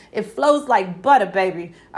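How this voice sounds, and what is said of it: Put-on New York accent. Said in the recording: “I got my New York accent for that one.”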